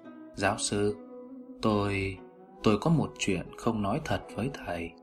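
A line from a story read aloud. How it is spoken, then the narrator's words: Hesitant speech. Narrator (Vietnamese): Gã ngập ngừng nói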